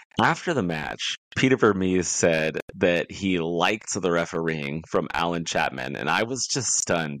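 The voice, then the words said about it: Sick, congested-sounding voice. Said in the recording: “Y'all might be able to hear it in my voice. I was a little sick this week”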